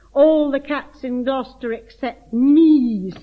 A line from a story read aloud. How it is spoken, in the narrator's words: sighed Simpkin